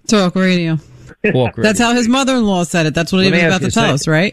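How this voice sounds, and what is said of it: New York accent. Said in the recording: “her New York accent”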